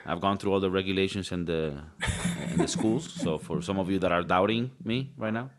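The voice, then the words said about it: Put-on accent, airline captain voice. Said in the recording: “I bet a lot of you didn't expect me to be the captain with this accent”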